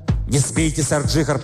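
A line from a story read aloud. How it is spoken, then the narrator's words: Hoarse rasp. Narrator (Russian): прохрипел Яртур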